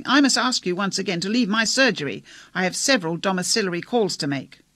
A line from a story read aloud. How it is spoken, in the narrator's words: Foskett, almost shouting